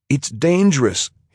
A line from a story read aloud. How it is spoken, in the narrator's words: told her, pleading as if she didn't know